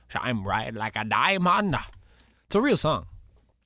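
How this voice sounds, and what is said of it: Put-on voice. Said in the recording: “doing that voice”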